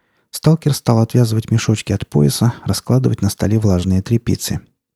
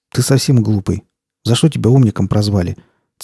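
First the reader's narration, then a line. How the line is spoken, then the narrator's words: Said to himself. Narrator (Russian): сказал сам себе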